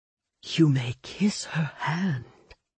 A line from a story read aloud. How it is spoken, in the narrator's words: Burbles informed me, a whisper in my ear